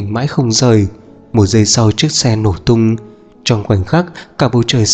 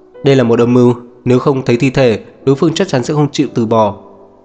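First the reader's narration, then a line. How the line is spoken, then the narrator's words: Irritated, raised voice. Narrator (Vietnamese): Diệp Uyên bực bội nâng cao giọng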